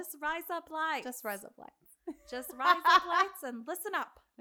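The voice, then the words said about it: Put-on Australian accent. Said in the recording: “Australian accents are so hard to do.”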